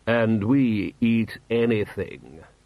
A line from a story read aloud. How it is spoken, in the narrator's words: said 71-hour Ahmed solemnly